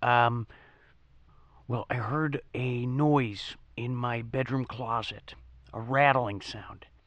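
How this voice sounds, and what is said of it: Whispering. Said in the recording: “I'm whispering right now.”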